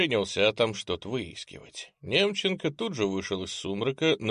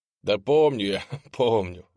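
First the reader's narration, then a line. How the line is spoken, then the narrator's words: Laughing. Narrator (Russian): засмеялся адепт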